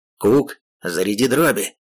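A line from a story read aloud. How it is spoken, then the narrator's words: Shout. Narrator (Russian): крикнул он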